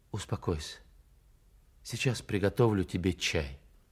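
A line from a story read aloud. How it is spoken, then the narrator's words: Quiet, soothing. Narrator (Russian): тихо сказала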